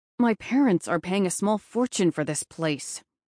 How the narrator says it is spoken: he said through gritted teeth

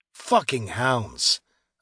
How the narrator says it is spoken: I grunted

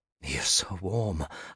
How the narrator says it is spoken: I breathed

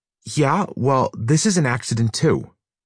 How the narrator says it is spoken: Parker snapped

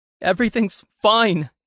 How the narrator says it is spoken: shouted back, his voice stuttering

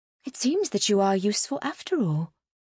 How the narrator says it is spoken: she said with a half-grin

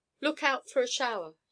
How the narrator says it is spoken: cried

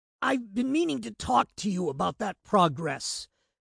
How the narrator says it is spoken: Patrick groaned, struggling up to his feet

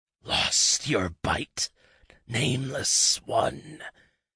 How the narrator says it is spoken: it hissed around its tongue

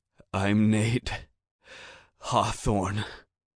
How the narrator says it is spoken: rasped faintly, drowned out by the rain

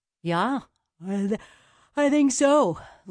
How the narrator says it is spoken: yawned

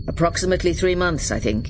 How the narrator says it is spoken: he said

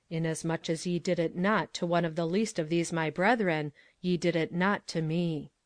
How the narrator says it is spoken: Parker bent forward a little and said softly

